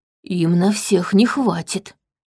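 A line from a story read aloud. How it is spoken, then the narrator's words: Whisper. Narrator (Russian): прошептал Витл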